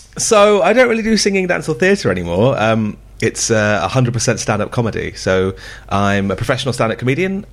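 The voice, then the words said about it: Slightly hoarse voice. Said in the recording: “my voice is a little bit hoarse today. They got me super duper drunk.”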